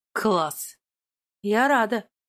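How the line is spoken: Muttered. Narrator (Russian): пробормотала она

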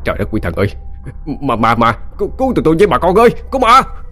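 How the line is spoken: Panicked screaming. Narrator (Vietnamese): tiếng la hét của cả hai

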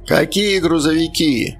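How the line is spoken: Old man's loud authoritative demand. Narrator (Russian): Громко, уверенно, с полным осознанием власти в голосе потребовал объяснений старик

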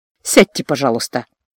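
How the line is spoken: Gentle request. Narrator (Russian): мягко попросил Гордон

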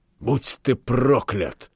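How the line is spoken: Hissing. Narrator (Russian): зашипел Франк, теряя охоту разыгрывать нравственное волнение

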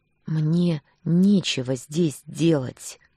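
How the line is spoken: Strained, through clenched teeth. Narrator (Russian): процедила сдавленно

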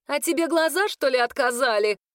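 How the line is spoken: Shouted reply. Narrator (Russian): прокричала в ответ Марион

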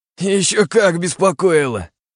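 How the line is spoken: Howl. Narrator (Russian): взвыл

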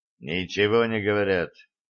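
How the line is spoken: Gloomy mutter, man. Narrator (Russian): хмуро буркнул шотландец

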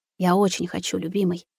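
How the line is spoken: Whispered. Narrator (Russian): прошептала Маруся

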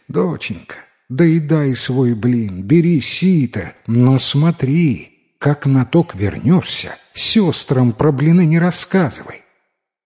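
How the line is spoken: Sighing mother. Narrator (Russian): Мать вздохнула и говорит

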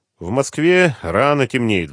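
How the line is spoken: Sigh. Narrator (Russian): вздохнул Владимир Владимирович

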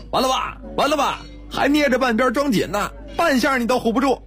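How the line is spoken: Shout amid crowd laughter. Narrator (Chinese): 哄笑，有人叫道

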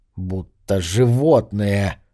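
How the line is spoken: Words through teeth. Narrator (Russian): процедил он

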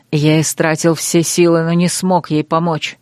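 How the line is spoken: Growled. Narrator (Russian): прорычал Крейг

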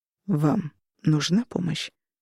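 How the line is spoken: Quiet. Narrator (Russian): повторил он тихо

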